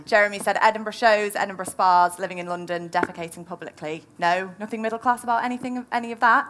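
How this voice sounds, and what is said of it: Manchester accent. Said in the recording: “my Manchester accent”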